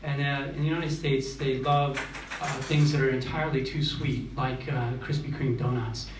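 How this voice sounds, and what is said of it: American accent. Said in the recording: “I come from the United States. You probably noticed from my accent.”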